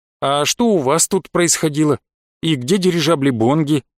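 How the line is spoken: Plain question. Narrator (Russian): спросил я

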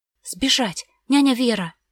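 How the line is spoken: Girl's loud blurted whisper. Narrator (Russian): выпалила девочка громким шепотом

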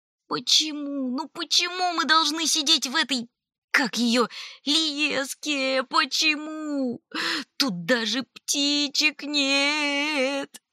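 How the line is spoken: Sobbing, loud hiccuping. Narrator (Russian): содрогаясь от рыданий, Олли громко икал

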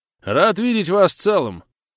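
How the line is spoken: Snort. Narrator (Russian): Ник хмыкнул, но тут же посерьезнел

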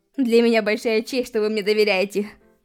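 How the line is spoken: Young man, laughing. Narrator (Russian): Ответил юноша и посмеялся

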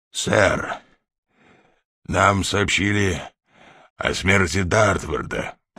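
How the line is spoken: Hoarse. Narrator (Russian): прохрипел майор

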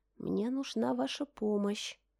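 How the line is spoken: Whispered. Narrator (Russian): Шепотом же произнесла

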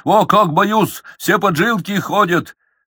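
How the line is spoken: Burst out laughing. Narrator (Russian): расхохотался

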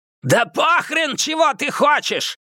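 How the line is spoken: Yelling. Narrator (Russian): заорал Скэг

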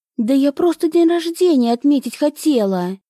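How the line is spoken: Exclaiming. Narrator (Russian): воскликнула Зарина

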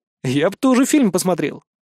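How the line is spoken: Wry snort. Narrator (Russian): хмыкнул я

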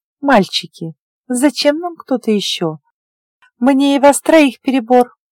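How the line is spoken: Affected giggling girlish voice. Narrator (Russian): Манерный девичий голосок сопровождался хихиканьем и короткими взвизгами, как будто говорящую щипали или мяли в процессе

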